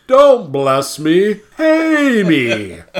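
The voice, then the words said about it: Weird imitated dwarf voice. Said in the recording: “He has this very weird voice.”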